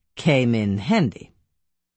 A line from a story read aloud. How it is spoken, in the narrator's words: the Hauptscharführer said dryly